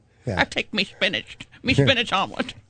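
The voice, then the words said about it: Popeye voice, out of mouth's side. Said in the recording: “we had her do Popeye out of the side of her mouth ... just talk out of the side of your mouth ... Pirate could do Popeye”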